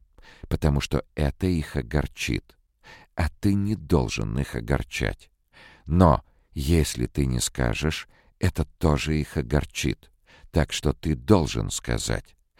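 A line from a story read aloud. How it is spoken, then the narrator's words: Slow repetition. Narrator (Russian): медленно повторяла Келвин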